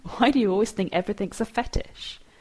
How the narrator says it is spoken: Leo chuckles

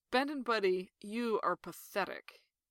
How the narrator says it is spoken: Ray actually laughs and says

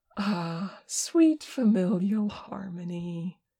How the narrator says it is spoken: Tenkun sighed dreamily

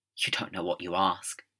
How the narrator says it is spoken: the Doctor whispered, horrified

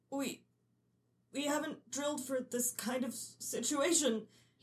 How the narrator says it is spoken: he stammers

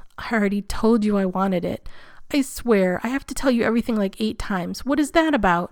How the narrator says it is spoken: Danny groans and … says

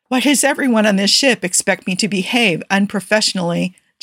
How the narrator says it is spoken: Jim complained with a laugh that indicated he already knew the answer

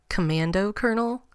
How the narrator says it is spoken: John chuckled

